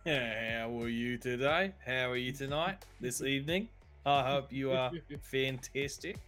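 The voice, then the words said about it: Imitates another person's accent, poorly. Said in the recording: “impersonating him ... shoddy work of my accent”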